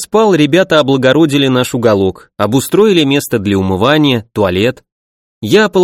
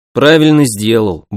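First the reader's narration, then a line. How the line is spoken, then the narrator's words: Gruff mutter. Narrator (Russian): буркнул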